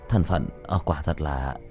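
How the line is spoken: Muttering. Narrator (Vietnamese): Chu Giai Hào lẩm bẩm

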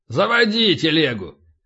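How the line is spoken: Barked. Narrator (Russian): рявкнул полубой

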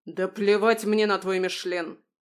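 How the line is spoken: Thunderous bellow. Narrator (Russian): Гаркнул он так, что с потолка посыпалась штукатурка

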